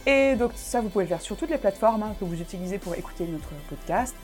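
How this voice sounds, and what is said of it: Pronounced Alsatian French accent. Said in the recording (French): “mon accent alsacien est trop prononcé”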